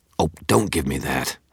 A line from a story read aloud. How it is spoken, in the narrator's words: snapped